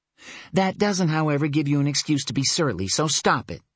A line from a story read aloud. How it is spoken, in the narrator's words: she added sharply